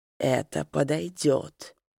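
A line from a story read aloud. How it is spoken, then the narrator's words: Whisper. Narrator (Russian): прошептал он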